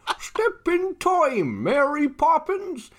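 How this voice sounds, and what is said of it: Dick Van Dyke impression, strangled-sounding. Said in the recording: “let me try my standard Dick Van Dyke. ... that sounded a little bit like Ow. Sean Connery being strangled”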